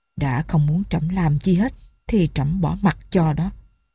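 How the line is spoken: King muttering to himself. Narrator (Vietnamese): vua lẩm bẩm như nói một mình

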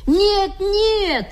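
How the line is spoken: Children shouting together. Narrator (Russian): закричали ребята

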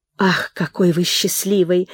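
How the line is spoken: Sighing. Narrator (Russian): вздохнув, сказала Нина

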